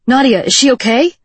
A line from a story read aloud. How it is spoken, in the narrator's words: Watt cried out